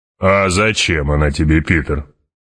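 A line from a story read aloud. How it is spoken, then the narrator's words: Deep bass voice. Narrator (Russian): пробасил барон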